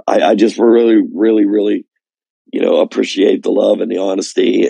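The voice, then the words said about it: Raspy, tired voice. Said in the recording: “I'm a little tired. My voice is raspy right now”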